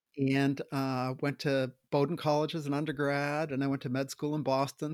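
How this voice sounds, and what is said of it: Maine New England accent. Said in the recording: “I was trying to place your accent of north of New York City ... I'm from Maine. I grew up in Maine.”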